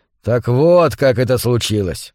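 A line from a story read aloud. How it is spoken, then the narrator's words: Heavy sigh, then speaking. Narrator (Russian): Наконец Джо тяжело вздохнул и сказал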